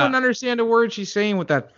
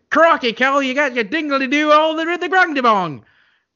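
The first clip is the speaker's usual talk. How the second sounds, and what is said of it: Exaggerated mock Australian accent. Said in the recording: “thick Australian accent ... I would have loved if that was her accent the whole movie.”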